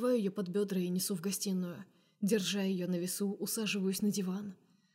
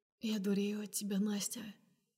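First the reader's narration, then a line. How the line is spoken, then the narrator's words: Hoarse. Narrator (Russian): проговариваю сипло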